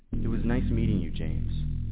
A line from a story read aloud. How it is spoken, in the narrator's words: He began mumbling the words